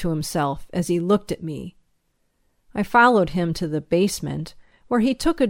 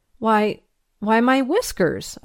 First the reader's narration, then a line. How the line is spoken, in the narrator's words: I stammered